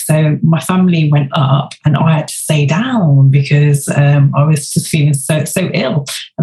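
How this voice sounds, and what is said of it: English accent. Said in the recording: “I was chatting to loads of lovely Americans, you know, they all love my accent.”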